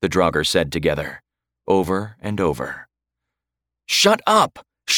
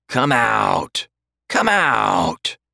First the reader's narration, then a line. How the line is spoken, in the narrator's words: one of the undead croaked